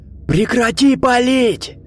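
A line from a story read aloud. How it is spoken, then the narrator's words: Roared. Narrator (Russian): взревел Виктор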